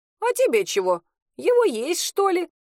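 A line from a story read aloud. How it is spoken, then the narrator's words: Giggling. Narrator (Russian): хихикнула Матрена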